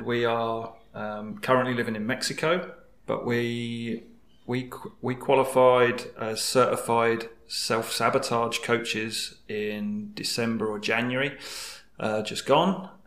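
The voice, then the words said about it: English accent. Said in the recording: “We are from England, as you might tell from my accent”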